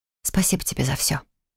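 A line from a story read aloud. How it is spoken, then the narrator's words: Whispered. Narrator (Russian): прошептав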